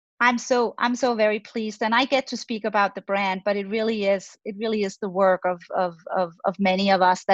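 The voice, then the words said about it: Danish accent. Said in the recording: “You can detect the accent. I am Scandinavian, from Denmark.”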